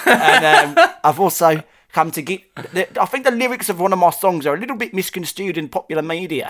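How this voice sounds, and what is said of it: Put-on South African accent. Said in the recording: “This is my accent. Off stage, I'm a South African man and a whole lot of South African. ... Very intense, man.”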